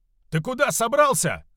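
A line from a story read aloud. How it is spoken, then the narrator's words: Shouting. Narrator (Russian): закричал Рейме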